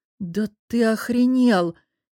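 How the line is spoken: Exhaled, at a loss. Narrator (Russian): Не найдя более подходящих слов, выдохнула я

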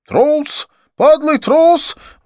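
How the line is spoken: Angry outcry. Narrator (Russian): выкрикнул Аршан

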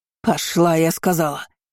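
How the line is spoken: Barked. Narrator (Russian): рявкнула тетка

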